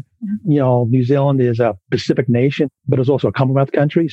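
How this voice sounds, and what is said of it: Mixed New Zealand and Philadelphia accent. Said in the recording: “I've got this funky accent, which is like New Zealand, Philadelphia East Coast.”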